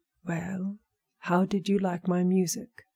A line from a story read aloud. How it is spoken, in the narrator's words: she asked